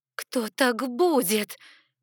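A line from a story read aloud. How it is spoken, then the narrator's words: Hoarse croak. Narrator (Russian): прохрипела я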